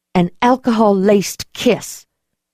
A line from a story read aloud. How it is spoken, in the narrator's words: I said tightly